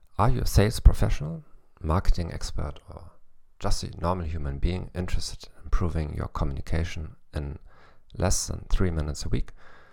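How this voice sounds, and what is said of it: English with a German accent. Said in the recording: “the only psychology podcast in the world in English with a German accent”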